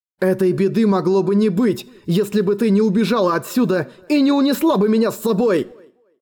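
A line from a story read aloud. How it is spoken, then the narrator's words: Angry, desperate shout. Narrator (Russian): В гневе и отчаянии выкрикнул он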